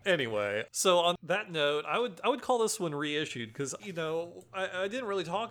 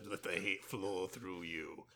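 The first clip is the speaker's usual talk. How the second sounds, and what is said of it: Emperor Palpatine impersonation. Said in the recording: “that's my Emperor Palpatine impersonation”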